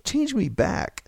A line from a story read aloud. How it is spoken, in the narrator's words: George pleaded